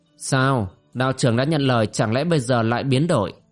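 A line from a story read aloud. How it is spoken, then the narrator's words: Cold. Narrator (Vietnamese): Đỗ Cửu lạnh lùng nói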